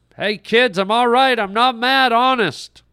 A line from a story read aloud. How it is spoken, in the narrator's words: Brett tried once more to yell to them